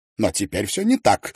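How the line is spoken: Exclaimed. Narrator (Russian): воскликнул Тидженс

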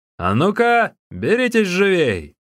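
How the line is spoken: Shouted urging. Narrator (Russian): предложил тот, что был в желтом халате, … закричал

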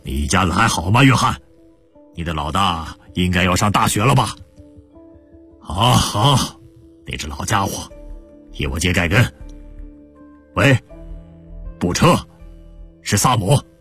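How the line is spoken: Hearty laugh. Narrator (Chinese): 他对着总机那边惊讶的语气哈哈一笑

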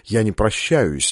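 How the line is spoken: Quiet. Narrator (Russian): негромко сказал он

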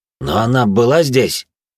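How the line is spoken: Impatient bark. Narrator (Russian): рявкнул пересмешник, явно начиная терять терпение

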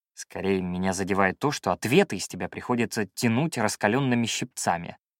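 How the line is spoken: Muttered. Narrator (Russian): пробормотал я

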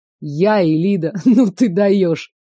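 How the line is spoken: Smirking snort. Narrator (Russian): Еще раз хмыкнул

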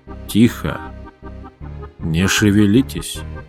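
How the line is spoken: Whisper. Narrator (Russian): прошептал он

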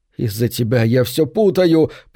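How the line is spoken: Moaning. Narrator (Russian): простонал

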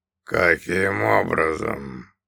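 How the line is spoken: Growl. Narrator (Russian): наконец прорычал он

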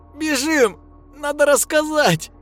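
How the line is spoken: Squealing. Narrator (Russian): визжал Шнурок

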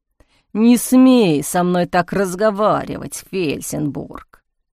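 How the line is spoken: Warden's growl. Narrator (Russian): прорычал надзиратель

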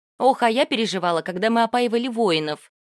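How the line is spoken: Laughing. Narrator (Russian): Нанка засмеялась

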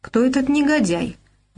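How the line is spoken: Hot-tempered exclamation. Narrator (Russian): воскликнул Мамсуров, демонстрируя восточную горячность

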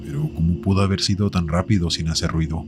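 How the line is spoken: Plain. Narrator (Spanish): preguntó mi novia

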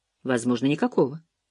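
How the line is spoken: Calm reply. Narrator (Russian): спокойно ответил сержант

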